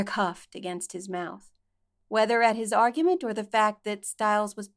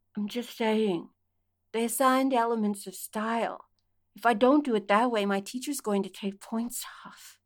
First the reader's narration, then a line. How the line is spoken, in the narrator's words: he mumbled into Derek's mouth